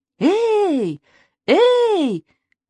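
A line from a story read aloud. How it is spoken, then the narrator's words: Barber's shout. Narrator (Russian): крикнул парикмахер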